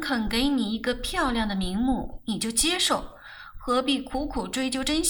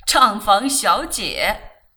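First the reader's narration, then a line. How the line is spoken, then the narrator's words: Hearty laughter. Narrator (Chinese): 他哈哈笑起来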